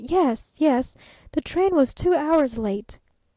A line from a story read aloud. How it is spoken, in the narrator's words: she stammered